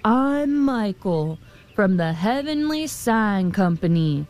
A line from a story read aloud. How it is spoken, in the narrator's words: thundered the man